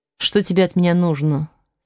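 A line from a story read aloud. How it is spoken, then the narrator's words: Plain. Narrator (Russian): спросил Рис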